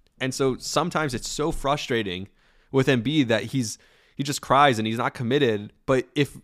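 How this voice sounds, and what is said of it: Usual voice. Nothing is said of it.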